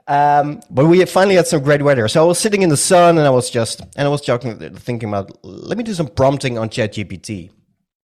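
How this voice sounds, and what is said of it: Slight Dutch accent. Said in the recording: “I'm from the Netherlands. Some of you might have already heard it on my accent, ... just a little bit.”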